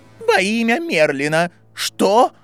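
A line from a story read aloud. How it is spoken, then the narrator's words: Exclamation. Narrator (Russian): воскликнула Минерва МакГонагал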